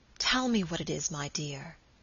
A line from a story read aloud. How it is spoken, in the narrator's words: he whispered tenderly